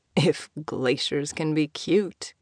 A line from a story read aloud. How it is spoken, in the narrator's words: Ashford muttered